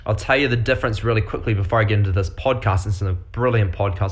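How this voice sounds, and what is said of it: New Zealand accent. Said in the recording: “I'm a fella from New Zealand, so I've got this really weird accent. It's not Australian”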